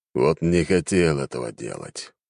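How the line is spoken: Resigned sigh. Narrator (Russian): обреченно вздохнул

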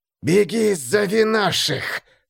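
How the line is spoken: Hissing. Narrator (Russian): прошипел тот

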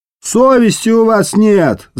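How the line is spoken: Loud yell. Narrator (Russian): заорал кто-то из присяжных

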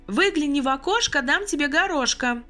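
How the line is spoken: Loud playful recitation. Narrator (Russian): громко продекламировала заведующая радуясь своей искрометной шутке

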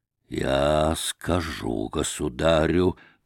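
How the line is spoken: Wheezing, out of breath. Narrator (Russian): прохрипел он, задыхаясь

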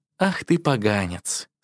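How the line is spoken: Calm, gentle speech. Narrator (Russian): спокойно и ласково сказала Ян Ли

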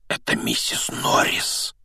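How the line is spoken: Breathless exclamation. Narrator (Russian): выдохнул Рон

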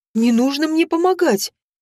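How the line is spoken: Frightened blurt. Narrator (Russian): испуганно выпалила я

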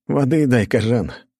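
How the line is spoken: Tired smirk. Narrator (Russian): устало усмехнулся я

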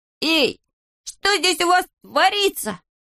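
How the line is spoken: Shouted. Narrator (Russian): закричал

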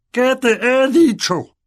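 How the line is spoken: Furious spluttering bellow. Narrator (Spanish): bramó el tío, rociando saliva por toda la mesa

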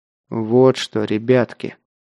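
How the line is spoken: Through gritted teeth. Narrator (Russian): сквозь зубы проговорил Ветров

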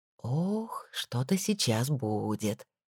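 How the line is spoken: Quiet. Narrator (Russian): тихо сказала Нора

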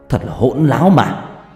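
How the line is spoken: Angry shout. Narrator (Vietnamese): nóng mặt, quát lên

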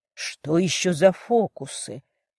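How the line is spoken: Aloud, uncertain. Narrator (Russian): Уже вслух, но как-то неуверенно произнес Джон

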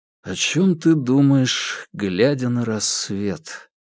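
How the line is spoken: Quiet question. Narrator (Russian): тихо спросил Паскаль

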